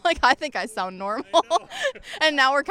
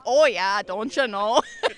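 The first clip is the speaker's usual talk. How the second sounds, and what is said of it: Exaggerated Minnesota accent, drawn-out O's. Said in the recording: “we're kind of just over-exaggerating it a little bit ... they want us to really exaggerate the O's”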